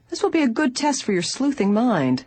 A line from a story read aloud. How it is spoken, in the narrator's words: her father said teasingly